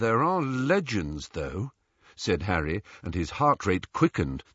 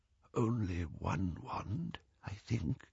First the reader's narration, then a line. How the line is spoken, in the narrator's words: he whispered